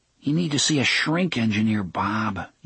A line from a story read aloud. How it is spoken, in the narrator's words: Jake murmured